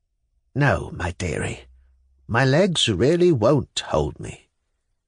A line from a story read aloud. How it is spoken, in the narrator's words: Makar Ivanovitch, almost tenderly, in a soft voice, said to her